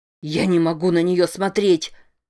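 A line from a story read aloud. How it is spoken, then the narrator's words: Shouting. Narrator (Russian): кричал он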